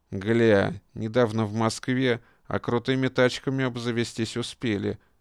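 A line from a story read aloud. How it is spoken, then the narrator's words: Muttered through teeth. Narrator (Russian): процедил бройлер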